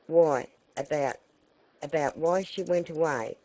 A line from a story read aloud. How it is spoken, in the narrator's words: stammered the boy, helplessly